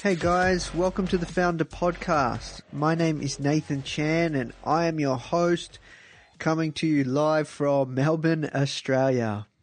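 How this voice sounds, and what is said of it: Squeaky, nasal congested voice. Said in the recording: “my voice sounds a little bit squeaky or, or a bit nasally ... I've actually had a really bad cold”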